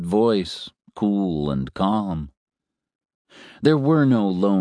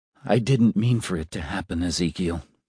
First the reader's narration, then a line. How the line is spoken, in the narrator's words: said